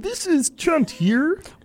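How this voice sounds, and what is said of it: Comedic character voice. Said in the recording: “give a little taste of Chunt. So let me just slip into that.”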